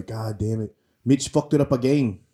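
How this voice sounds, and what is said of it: Imitated English accent of another person. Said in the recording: “He's actually English ... my best Alex impression”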